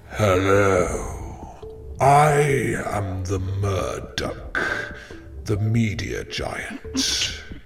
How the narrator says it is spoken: booming with every footstep, says

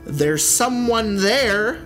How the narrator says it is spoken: I scream

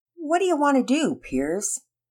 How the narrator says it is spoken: Penelope asked lazily, and with a half-hearted attempt to actually get off the floor

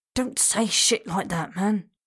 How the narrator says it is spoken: warned in a low, urgent voice

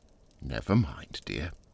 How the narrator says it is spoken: said his wife, soothingly

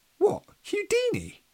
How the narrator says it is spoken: exclaimed Alex

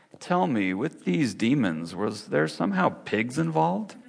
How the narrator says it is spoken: The man began to laugh, a pleasant sound

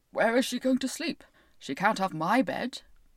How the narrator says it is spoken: the one whose counterpane was of red, who grumbled about

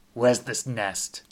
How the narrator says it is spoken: MC growled

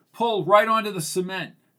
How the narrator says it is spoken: yelled Caroline

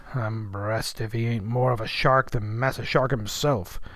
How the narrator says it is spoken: muttered the old man

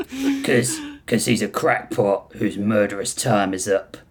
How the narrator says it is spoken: Grissom snarled

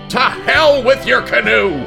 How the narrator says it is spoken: the Canadian yelled

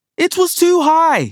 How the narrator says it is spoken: shouts

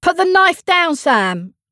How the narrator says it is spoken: say loudly

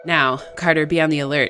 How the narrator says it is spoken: he said

